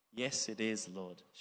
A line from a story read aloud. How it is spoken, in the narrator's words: she replied